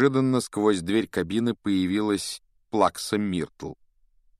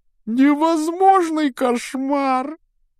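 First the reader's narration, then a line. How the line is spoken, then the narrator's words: Sobbing. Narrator (Russian): рыдая, предстала Гермиона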